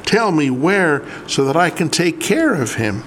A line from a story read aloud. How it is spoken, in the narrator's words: pleaded softly